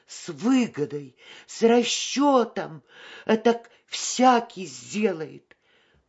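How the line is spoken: Loud whimpering child. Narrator (Russian): маленькая девочка в его сердце принялась громко хныкать и приговаривать

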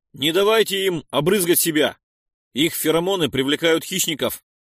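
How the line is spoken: Shouted. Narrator (Russian): выкрикнул я

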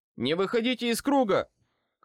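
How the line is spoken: Shout. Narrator (Russian): крикнул я

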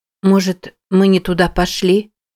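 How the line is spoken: Uncertain. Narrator (Russian): неуверенно произнесла Мэтти

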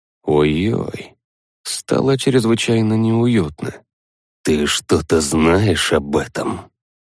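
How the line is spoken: Very quiet shaman asking. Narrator (Russian): Очень тихо спросил шаман

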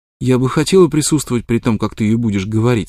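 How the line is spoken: Plain. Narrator (Russian): сказала она

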